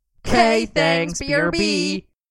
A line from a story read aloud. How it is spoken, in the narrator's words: They would shout together